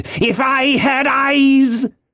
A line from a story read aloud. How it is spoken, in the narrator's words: he cried